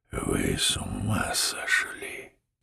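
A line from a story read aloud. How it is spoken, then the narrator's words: Furious whisper. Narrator (Russian): уже содрогаясь от ярости, и прошептал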